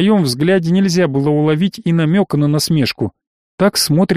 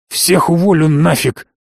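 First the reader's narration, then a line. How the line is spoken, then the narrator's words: Angry growl. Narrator (Russian): рыкнул позеленевший босс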